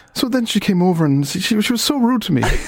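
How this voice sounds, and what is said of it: Put-on Meath Irish accent. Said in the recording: “I can't do accents... let's try and do accents... She was from Meath. It was a Meath accent there.”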